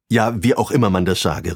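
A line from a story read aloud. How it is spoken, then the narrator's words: Called out. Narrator (German): rief Pabst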